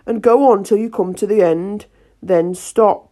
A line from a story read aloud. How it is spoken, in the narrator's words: the King said very gravely